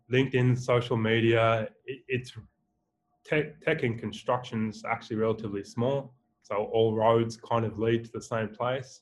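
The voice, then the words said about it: Australian accent. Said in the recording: “my beautiful Australian accent”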